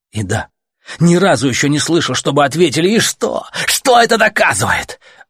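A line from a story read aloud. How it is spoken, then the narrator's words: Shouting. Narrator (Russian): Артем уже не Гомеру кричал, а всем этим гребаным велосипедистам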